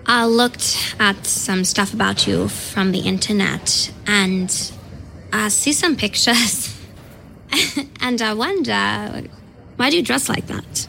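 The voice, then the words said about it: Fake German accent. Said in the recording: “That is a fake German heiress accent.”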